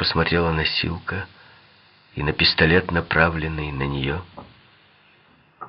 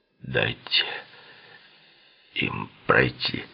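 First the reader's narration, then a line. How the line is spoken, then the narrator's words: Muffled commanding voice. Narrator (Russian): Глухим голосом Литти приказал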